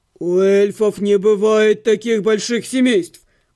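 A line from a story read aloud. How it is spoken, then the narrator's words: Roaring. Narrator (Russian): взревел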